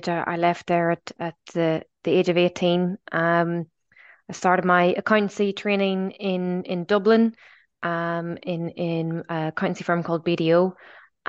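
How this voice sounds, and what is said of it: Slight Northern Irish accent. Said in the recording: “I detect a little accent. ... I'm originally from Belfast.”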